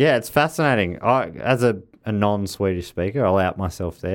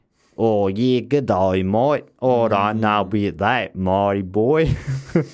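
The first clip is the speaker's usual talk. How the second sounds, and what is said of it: Mock Australian accent. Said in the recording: “people doing Australian accents. I mean, that's just an accent, and it sounds funny.”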